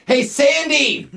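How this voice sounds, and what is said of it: Yelling across a room. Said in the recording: “you're yelling at ... You're shouting back and forth.”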